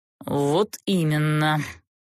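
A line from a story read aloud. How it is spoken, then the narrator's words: Bitter snort. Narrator (Russian): желчно фыркнул герцог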